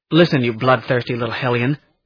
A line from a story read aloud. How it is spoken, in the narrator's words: I snapped